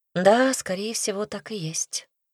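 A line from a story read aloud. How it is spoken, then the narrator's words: Sighing ghost. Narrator (Russian): вздохнул призрак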